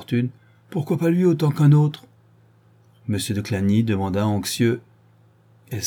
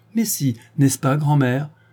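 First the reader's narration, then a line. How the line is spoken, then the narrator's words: Cheerful question. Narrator (French): demanda gaiement Denise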